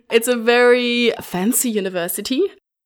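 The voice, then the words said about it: Bad put-on British or Scottish accent. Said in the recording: “That was my worst British accent or Scottish or whatever that was meant to be.”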